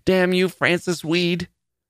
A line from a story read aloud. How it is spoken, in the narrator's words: Julia cried, and the spit of her words struck him in the face